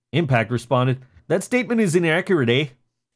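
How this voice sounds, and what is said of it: Put-on Canadian accent. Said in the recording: “slipping into his like racist Canadian ... I threw in the Canadian”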